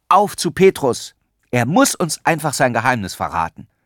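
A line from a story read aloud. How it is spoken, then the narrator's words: Eager call. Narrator (German): rief Erik tatendurstig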